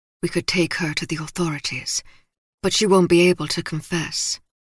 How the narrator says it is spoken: Bacchus murmured

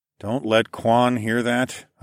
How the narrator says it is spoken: I muttered

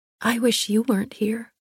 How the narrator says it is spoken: I whispered

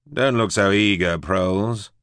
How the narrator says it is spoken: Cecil drawled

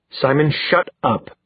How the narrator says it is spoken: Magnus said through gritted teeth

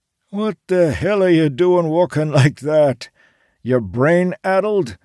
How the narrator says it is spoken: Charles called after him

